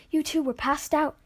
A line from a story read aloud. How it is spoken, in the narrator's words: the lady said anxiously